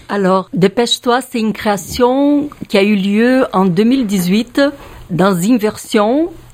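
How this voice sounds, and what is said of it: Slight Brazilian accent in French. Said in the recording (French): “vous entendez mon petit accent, je suis brésilienne.”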